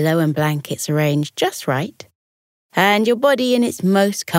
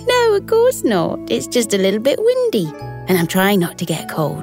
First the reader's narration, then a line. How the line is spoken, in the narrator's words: Talia giggled and replied